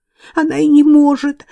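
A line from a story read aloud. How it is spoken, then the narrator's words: Sobbing. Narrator (Russian): всхлипнула Гвенлиан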